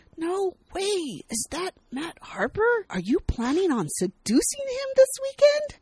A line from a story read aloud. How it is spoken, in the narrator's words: Sydney excitedly whisper talks